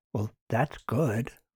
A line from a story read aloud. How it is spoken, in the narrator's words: Martin whispered back